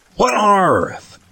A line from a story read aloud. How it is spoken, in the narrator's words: shouted